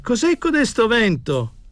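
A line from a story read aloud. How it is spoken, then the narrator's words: Shouting. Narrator (Italian): gridava Tommasini al cameriere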